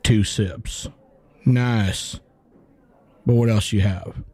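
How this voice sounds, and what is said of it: Bad put-on Southern accent. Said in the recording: “This is the worst Southern accent I've ever heard. Sounds like somebody from Wisconsin trying to do a Southern accent.”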